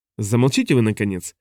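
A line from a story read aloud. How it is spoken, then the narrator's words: Irritated, interrupting. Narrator (Russian): раздраженно оборвал его Оповин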